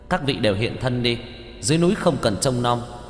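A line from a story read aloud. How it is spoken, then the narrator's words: Loud. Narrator (Vietnamese): lớn tiếng nói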